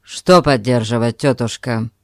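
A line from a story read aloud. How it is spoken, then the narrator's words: Firm, stern question. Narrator (Russian): спросил Альберт решительно и строго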